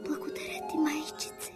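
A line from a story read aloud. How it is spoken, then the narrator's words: Whisper. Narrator (Bulgarian): прошепна то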